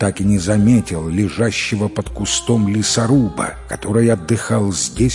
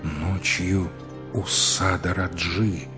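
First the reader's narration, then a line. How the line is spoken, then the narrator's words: Repeated in undertone. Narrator (Russian): вполголоса повторил царевич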